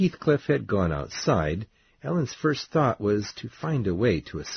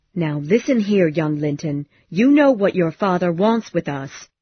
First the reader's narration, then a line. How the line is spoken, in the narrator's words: she said firmly